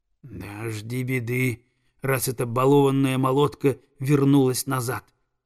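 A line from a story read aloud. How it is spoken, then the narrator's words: Spiteful hiss, female. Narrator (Russian): злобно прошипела прекраснокрылая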